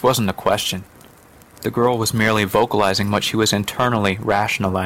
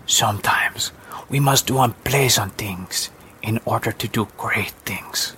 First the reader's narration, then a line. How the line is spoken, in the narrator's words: the woman whispered gently